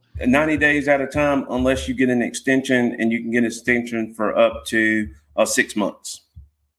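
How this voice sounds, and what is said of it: North Carolina twang. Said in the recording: “I get that North Carolina twang in there”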